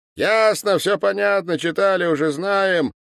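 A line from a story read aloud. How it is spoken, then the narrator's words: Shout. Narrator (Russian): Иван Петрович тоже крикнул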